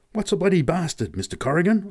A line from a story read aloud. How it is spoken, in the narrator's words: I gasped at last